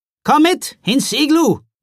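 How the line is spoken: Calling. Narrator (German): rief Jule Nissen

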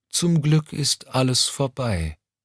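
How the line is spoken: Tired reply. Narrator (German): entgegnete Mommsen müde

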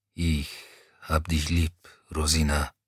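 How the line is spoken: Quiet mumble over machine. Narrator (German): brummte er leise genug, dass Rosina es im Dröhnen der Maschine nicht hören konnte

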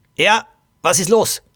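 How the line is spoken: Angry young woman. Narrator (German): Eine junge Frau … wütend … und sagte

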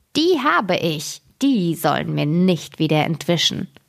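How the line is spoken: Malicious mocking laugh. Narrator (German): lachte sie boshaft und sprach höhnisch

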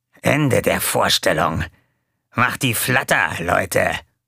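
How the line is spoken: Growled. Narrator (German): knurrte

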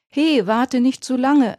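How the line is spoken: Called after. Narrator (German): rief Ronny ihm nach

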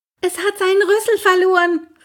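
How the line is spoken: Calling out. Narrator (German): rief

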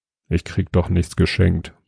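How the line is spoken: Murmured. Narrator (German): murmelte Jobst

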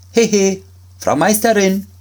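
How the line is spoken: Called out. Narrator (German): rief er

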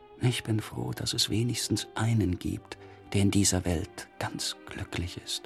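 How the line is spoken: Quiet, disappointed. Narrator (German): sagte leise ein Enttäuschter

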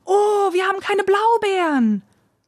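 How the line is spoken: Exclamation. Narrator (German): rief Dulcinea

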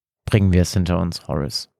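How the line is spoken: Firm voice. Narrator (German): fügte er mit fester Stimme hinzu

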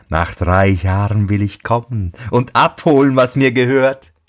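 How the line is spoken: Mocking laugh. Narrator (German): lachte höhnisch und sagte

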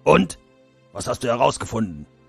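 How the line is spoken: Stern question. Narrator (German): fragte Schlachtgol streng

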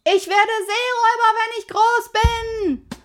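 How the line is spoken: Calling out. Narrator (German): rief Pippi

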